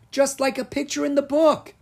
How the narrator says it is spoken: Rory cried

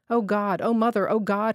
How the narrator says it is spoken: he moaned, not very loudly, in a sing-song voice

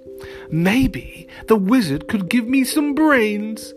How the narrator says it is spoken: said the scarecrow happily

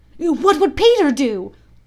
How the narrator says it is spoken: they cried simultaneously

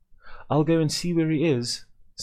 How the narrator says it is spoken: said Annie, excitedly

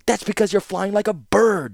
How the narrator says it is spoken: snapped Urza

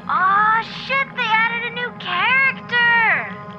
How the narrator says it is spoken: Someone screams into their mic

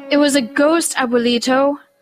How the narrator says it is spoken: Rosita whimpered

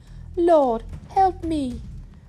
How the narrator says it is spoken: pleading again

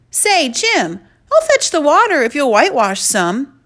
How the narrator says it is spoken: called out

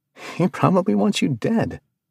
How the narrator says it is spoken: said, laughing

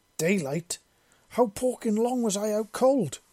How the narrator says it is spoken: she yelled

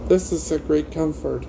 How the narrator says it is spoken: he said

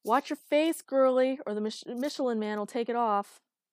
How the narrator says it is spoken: Someone down the line shouted

